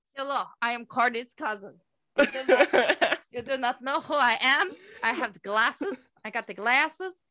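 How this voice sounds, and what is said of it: Vague, unplaceable put-on accent. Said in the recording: “this very indistinct accent. ... You have no idea where I come from.”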